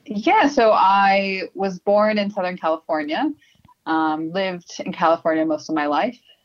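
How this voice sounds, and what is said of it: American accent. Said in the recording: “obviously you've got an American accent.”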